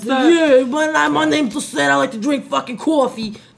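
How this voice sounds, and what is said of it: Put-on New York accent. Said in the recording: “like a New York accent”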